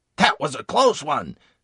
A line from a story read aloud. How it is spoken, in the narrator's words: exclaimed